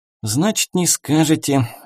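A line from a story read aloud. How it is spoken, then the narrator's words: Sorrowful sigh, boy. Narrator (Russian): горестно вздохнул парнишка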